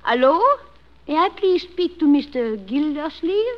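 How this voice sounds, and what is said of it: Woman's voice with foreign accent. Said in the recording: “Lady animal. Foreign accent. ... I'll act it out for you.”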